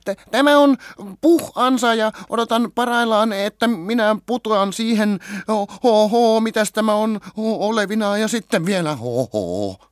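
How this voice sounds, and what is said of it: Fast, squeaky voice. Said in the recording (Finnish): “sanoi nopeasti vikisevällä äänellä”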